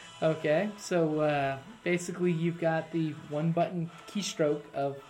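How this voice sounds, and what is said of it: Usual voice. Nothing is said of it.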